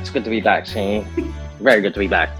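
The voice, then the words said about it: Put-on gangster-style accent. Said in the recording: “Is that a new accent you picked up ... I got to get gangster”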